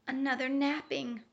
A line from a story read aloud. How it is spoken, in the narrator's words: whispered the wombat